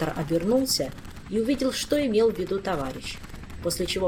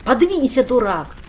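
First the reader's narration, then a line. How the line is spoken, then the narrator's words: Barking. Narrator (Russian): рявкнул предводитель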